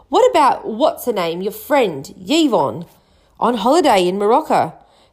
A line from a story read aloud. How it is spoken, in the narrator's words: snapped Aunt Petunia